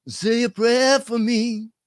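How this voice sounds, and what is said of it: Sung impression of a singer. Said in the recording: “That was me doing my impression of the person singing”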